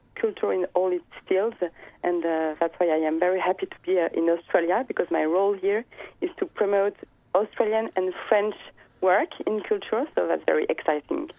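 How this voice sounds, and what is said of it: French accent. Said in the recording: “my accent is still French, as you can hear”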